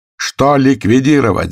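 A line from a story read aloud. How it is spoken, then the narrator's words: Shouted. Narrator (Russian): закричал Пантелеев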